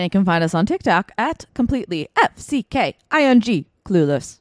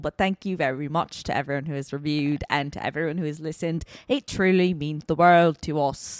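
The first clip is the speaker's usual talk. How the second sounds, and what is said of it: Silly voice, shifting bad accents. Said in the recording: “I'm doing it in a silly voice ... I have several accents throughout several that time. I'm not very good at accents”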